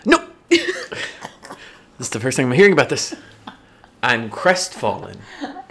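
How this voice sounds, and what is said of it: Imitates another person's voice. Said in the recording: “Should we both do our best impression of it? I'm going to try.”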